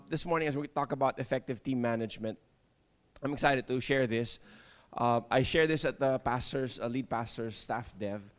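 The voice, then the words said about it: Voice sounds off, congested. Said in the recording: “Sorry, I have allergies today. ... That's why my voice is like this.”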